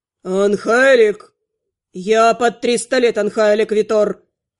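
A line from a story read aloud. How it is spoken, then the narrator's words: Sharp reply. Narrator (Russian): Резко откликнулся тот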